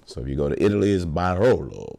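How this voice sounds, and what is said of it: Italian accent on a word. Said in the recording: “Notice the Italian accent.”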